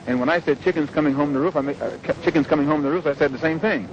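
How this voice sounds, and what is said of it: Fast, forceful speech. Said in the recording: “I'm talking so fast and so hard.”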